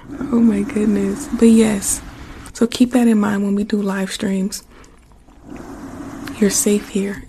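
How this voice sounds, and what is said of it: Hoarse speaking voice. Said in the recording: “My voice is so hoarse right now. I think I've been whispering too much. My voice is so hoarse.”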